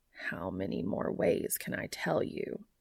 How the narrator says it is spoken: He murmurs out loud

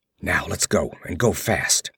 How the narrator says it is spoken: he grunted

